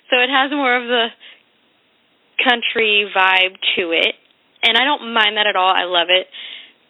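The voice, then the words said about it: Texas accent. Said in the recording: “I'm from Texas, so I'm sure you can hear the accent.”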